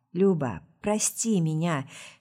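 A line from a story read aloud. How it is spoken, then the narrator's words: Husky whisper. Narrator (Russian): шепчу хрипловатым шепотом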